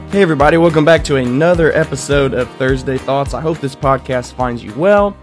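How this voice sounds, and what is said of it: Congested, faint, low deep voice. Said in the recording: “my voice is going to be a little faint, maybe a little bit low. I've been battling this congestion ... hear me with a super deep”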